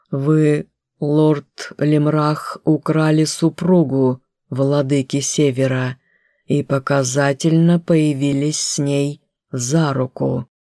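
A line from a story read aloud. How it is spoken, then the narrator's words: Clipped, emphatic. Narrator (Russian): отчеканил Датр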